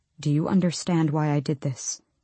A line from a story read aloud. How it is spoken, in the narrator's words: He asked softly